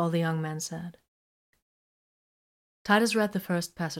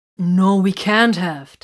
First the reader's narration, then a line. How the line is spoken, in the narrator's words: Titus exclaimed